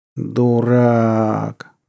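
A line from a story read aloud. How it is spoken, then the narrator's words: Groaned. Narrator (Russian): простонал Наму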